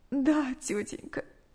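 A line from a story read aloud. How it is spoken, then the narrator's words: Tearful reply. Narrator (Russian): сквозь слезы ответила Наташа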